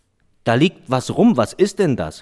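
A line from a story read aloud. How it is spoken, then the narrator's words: Calling out. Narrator (German): rief er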